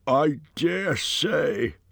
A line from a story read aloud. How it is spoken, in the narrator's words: grumbled Bomber